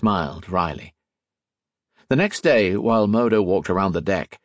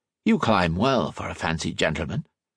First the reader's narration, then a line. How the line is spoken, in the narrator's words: the man said